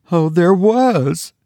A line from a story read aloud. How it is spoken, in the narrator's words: moaned his wife